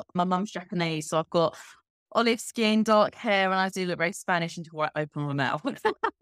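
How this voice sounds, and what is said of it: English accent, not Spanish. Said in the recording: “Now, you don't have a Spanish accent... you'll be able to tell from my accent, I am not actually Spanish... I actually grew up in, if anyone knows England, Kent”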